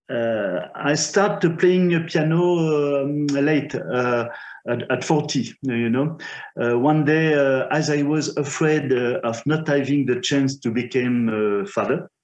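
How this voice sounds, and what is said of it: Non-native English accent. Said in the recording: “sorry for my English and my accent, because I don't practice so much”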